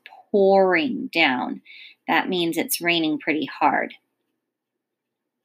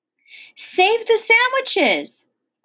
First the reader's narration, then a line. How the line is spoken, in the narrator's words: Gloria Dump yelled to me